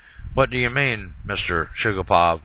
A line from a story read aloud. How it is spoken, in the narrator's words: I asked